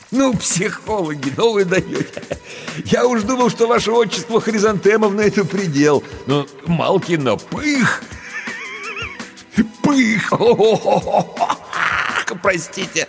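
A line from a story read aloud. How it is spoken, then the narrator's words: Roaring laughter, sobbing. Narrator (Russian): хохотал, широко и раскатисто, самозабвенно, утирая слезы, всхлипывая в тщетной попытке прекратить хохот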